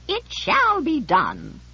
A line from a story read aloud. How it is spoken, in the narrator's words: in a lordly countertenor squeak said